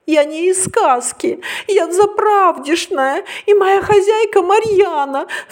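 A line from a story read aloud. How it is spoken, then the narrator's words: Sobbing. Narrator (Russian): всхлипывая, проговорила Ариша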